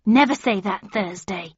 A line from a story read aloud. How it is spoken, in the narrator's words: said Gran so sharply